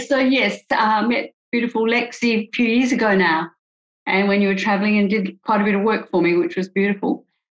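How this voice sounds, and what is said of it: Australian accent. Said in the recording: “they're probably not used to the Aussie accent. So, I'll try and speak slowly.”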